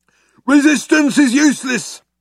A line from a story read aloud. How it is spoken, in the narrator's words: shouted the Vogon guard back at him